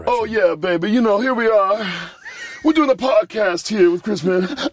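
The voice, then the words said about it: Imitates another person's voice. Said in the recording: “Do a good Hendrix impression.”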